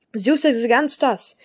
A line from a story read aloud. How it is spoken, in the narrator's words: shouted